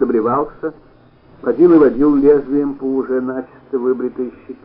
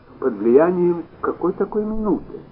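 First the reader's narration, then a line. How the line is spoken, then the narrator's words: Very quiet, fearful question. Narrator (Russian): Совсем тихо осведомилась она, тихо и со страхом в голосе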